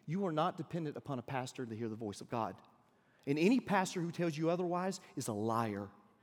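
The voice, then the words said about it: American Deep South accent. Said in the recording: “by my accent, but I'm from the deep south”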